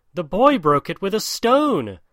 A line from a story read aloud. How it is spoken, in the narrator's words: cried Darzee's wife